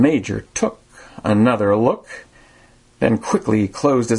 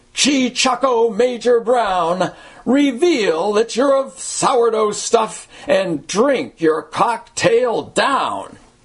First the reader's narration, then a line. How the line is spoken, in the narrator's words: with a roar, the crowd proclaimed